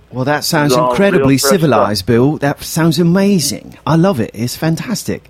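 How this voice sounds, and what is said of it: Put-on British accent. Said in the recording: “I don't know why I'm talking in an accent, but you said civilized, so I decided to start talking as a British person.”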